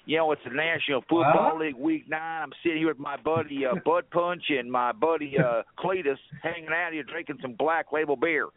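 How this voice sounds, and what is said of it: Put-on southern drawl. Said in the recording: “Get that real southern kind of drawl.”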